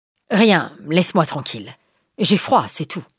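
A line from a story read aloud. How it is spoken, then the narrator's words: Angry tone. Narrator (French): répond-il d'un ton courroucé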